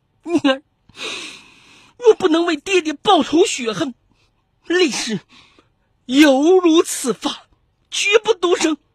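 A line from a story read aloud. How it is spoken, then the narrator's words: Mournful weeping. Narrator (Chinese): 哀哀哭道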